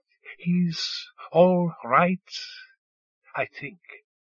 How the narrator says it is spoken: she said, looking troubled, her tone measured

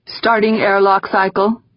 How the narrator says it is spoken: Gaeta said, his voice going flat as he lapsed into the clipped jargon of a mission controller

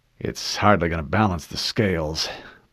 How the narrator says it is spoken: Blue 3 muttered

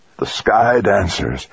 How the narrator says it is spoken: Al croaked in his feeble voice

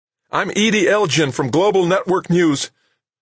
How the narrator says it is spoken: the figure shouted as she ran clumsily

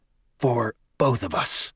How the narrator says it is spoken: the Vice Minister added in a conspiratorial whisper

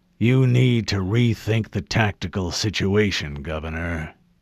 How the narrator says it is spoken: he growled

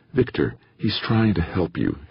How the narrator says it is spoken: said soothingly

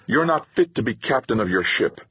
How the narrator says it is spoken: Tamara snarled

